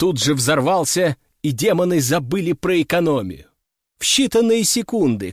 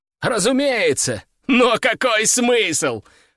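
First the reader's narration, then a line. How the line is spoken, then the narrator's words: Steward laughing loudly. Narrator (Russian): расхохотался распорядитель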